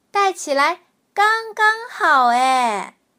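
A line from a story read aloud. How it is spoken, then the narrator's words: Little bear, loud cheering. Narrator (Chinese): 小熊高声欢呼着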